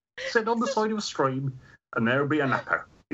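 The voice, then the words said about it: Gloucestershire English accent. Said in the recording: “I may lapse into my native accent for this one because this is very much a Gloucestershire word. So the accent that I tried to get rid of as I moved into the big city will return.”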